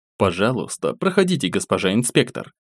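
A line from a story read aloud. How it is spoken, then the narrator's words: Quiet. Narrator (Russian): негромко добавив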